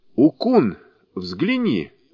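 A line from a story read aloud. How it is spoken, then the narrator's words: Monk exclaiming. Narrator (Russian): воскликнул монах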